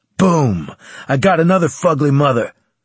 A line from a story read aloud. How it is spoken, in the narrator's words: Carlos exclaimed in triumph